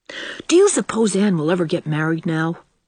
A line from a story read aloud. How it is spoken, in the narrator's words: speculated Davy anxiously